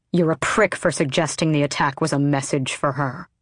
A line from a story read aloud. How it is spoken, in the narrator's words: Adian snarled